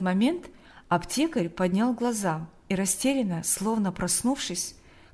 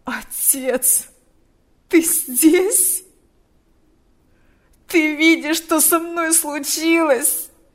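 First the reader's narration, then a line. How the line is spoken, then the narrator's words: Moaning. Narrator (Russian): стонал он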